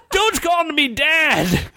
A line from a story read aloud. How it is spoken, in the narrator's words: Count Encrusted yelled back